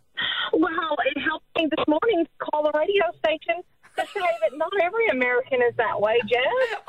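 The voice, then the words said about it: Noticeable American accent. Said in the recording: “has your accent helped or hindered you?”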